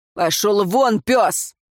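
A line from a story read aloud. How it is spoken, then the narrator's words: Barked. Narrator (Russian): тот рявкнул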